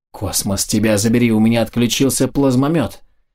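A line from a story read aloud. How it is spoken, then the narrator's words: Soldier exclaiming. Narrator (Russian): воскликнул боец, идущий последним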